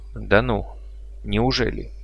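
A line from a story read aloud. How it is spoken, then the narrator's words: Mutter. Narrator (Russian): пробормотал я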